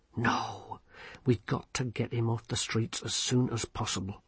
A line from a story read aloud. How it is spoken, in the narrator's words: Vimes muttered